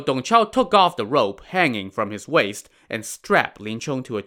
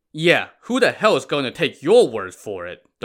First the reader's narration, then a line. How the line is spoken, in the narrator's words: Dong Chao scoffed